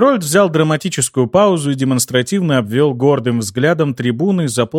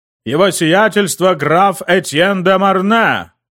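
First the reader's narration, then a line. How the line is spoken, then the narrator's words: Herald's loud call. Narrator (Russian): Наконец выкрикнул Герольд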